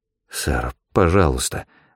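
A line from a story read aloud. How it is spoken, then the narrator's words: Mumbling. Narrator (Russian): забормотал Чилден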